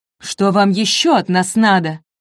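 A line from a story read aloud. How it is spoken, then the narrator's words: Shouting. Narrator (Russian): крикнул Альда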